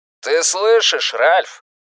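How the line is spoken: Roaring. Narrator (Russian): проревел Стью

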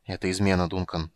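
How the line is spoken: Quiet. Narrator (Russian): сказал он негромко

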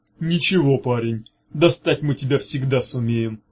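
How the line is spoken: Hollow booming. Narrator (Russian): как из колодца прогудела Таамак

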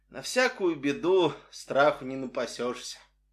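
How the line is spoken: Dry, curt. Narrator (Russian): она сухо произнесла

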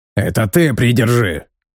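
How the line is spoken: Barking. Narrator (Russian): рявкнул Сига

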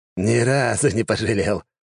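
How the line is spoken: Laughing loudly. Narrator (Russian): расхохотался некромант

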